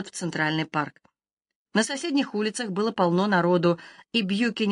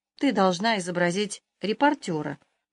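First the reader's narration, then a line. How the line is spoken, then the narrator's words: Solemn announcement. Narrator (Russian): торжественно сообщил Бьюкинин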